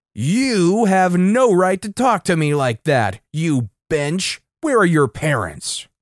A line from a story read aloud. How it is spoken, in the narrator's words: Yelling once again